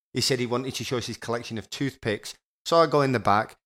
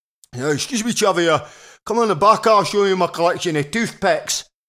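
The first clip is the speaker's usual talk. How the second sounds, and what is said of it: Working-class Scottish accent. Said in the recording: “this is a working class Scottish accent, my Scottish friends will understand it.”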